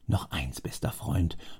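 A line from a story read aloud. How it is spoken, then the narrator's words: Murmuring. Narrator (German): murmelte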